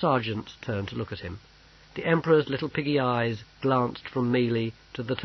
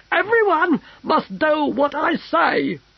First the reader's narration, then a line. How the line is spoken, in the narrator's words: screamed the Emperor